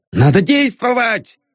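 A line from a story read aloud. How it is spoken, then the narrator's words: Shouting. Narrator (Russian): кричал Полисов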